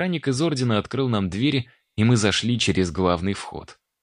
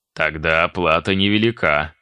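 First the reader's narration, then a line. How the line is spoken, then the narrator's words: Amused snort. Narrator (Russian): хмыкнул Архимаг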